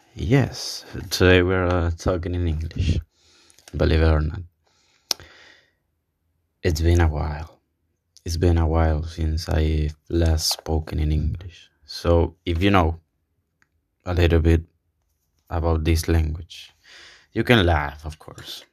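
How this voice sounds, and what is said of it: Non-native English accent, rusty. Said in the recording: “You can mock my my English, my accent is totally fine. I totally understand it because I realize it's kind of shitty, it's rusty”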